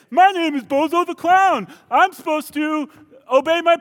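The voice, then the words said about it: Bozo the Clown as a kid. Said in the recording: “do an impression of Bozo the Clown if he was a kid”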